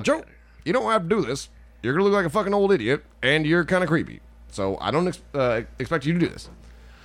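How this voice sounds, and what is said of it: Impression of Barack Obama. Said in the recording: “That's a good impression.”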